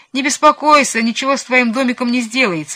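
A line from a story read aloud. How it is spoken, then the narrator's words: Laughing. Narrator (Russian): засмеялся Чиполлино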